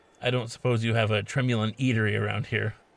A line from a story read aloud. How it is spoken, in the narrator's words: he said with a forced chuckle